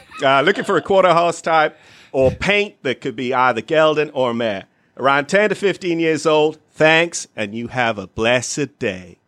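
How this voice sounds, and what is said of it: Put-on Southern American accent. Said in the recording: “He does a better Southern accent than I do.”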